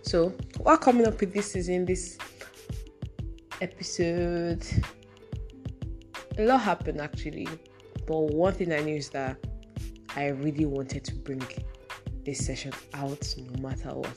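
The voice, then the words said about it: Congested voice from a cold. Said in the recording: “I have a cold, so pity me and pity my voice”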